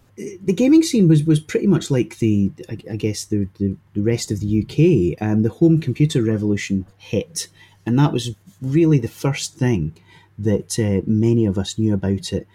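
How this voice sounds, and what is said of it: Scottish Fife accent. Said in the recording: “I grew up in Fife, as you can tell from the charming accent”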